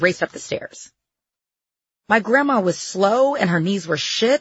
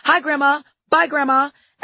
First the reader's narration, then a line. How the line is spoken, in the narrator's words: yelling